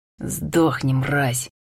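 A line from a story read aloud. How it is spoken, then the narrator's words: Hoarse, fierce smiling rasp. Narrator (Russian): Хриплю, улыбаясь яростно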